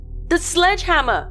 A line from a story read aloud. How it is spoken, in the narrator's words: I yelled